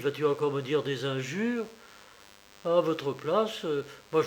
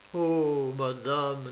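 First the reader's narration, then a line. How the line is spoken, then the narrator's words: Plain. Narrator (French): dit Hermine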